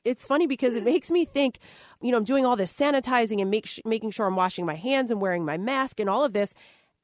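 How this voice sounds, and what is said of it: Congested voice from a cold. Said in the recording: “I sound a little under the weather. I have a little cold ... a little summer cold”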